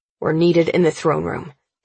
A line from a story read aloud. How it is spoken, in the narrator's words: he says firmly